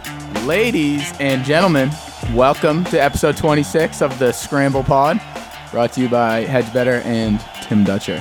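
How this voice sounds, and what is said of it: Announcer-style radio voice. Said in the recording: “I had to do my radio voice... that was pretty good”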